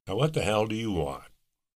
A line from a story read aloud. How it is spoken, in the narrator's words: said irritably